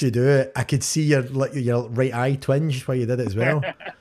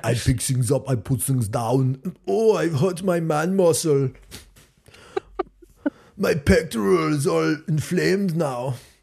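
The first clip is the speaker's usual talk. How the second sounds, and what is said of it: Put-on Geordie accent. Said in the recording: “stop with your Geordie accent”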